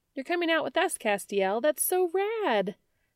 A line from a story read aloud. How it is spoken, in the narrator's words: she chirped